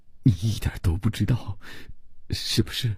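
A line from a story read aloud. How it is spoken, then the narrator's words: Frightened, pleading stammer. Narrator (Chinese): 伯罗姆吓得，只用哀求的目光结结巴巴地说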